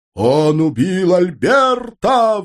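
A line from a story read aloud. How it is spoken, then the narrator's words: Nearby roar. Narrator (Russian): взревел главный, наверное, прямо тут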